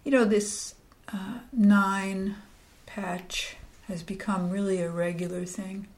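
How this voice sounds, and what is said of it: Soft, near-whispered speech. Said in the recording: “sometimes it may sound like I'm whispering”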